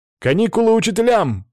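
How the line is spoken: Shouted. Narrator (Russian): крикнул

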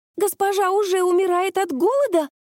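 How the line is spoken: Squeak. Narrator (Russian): пискнула Юри

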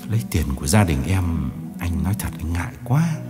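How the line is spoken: Soft sigh. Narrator (Vietnamese): 000 Đường khẽ thở dài

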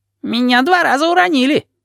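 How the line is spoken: Squeaky. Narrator (Russian): пискнул Вонючка

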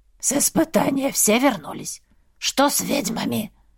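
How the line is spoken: Hoarse clarifying question. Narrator (Russian): уточнил один с хриплым голосом

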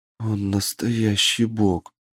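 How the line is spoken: Whisper. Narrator (Russian): прошептала мне Лана

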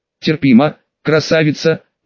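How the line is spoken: Hoarse rasp after pause. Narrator (Russian): после долгой паузы прохрипел Женя

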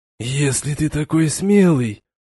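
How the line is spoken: Hoarse rasp. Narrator (Russian): прохрипел Градиил

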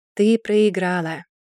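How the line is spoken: Sighing. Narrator (Russian): вздохнул Маркус

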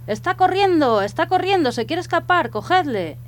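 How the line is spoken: Peasants shouting. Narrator (Spanish): los campesinos que estaban apilando la madera, se pusieron a gritar

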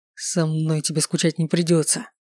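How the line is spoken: Menacing hiss. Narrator (Russian): прошипел Далагарди

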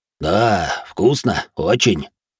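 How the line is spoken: Deep bass voice. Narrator (Russian): пробасил громила

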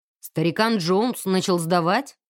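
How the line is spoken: Scoffing grunt. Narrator (Russian): хмыкнул мистер Гилмор

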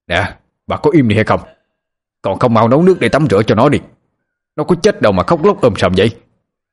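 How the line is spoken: Sharp shout. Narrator (Vietnamese): quát lên

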